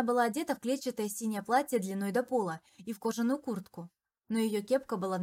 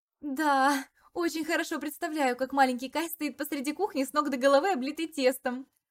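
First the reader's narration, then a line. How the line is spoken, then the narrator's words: Laughing. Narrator (Russian): смеялась я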